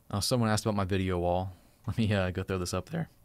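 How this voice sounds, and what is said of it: Voice cracking like a teenager. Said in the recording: “my voice cracking like I'm 13 years old”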